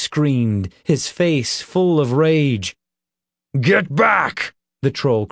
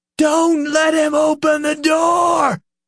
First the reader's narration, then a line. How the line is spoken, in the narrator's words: Nick screamed, his face a knot of frustration